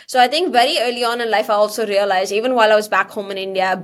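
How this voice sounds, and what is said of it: Indian-accented English. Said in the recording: “being different from the others in terms of my accent”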